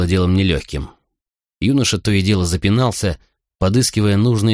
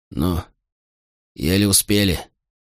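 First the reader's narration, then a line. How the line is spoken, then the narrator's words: Hoarse, strained voice. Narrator (Russian): прохрипел севшим голосом Катон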